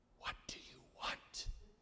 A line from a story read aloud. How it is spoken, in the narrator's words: whisper